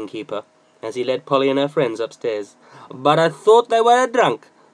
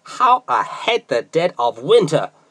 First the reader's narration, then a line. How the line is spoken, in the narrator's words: he exclaimed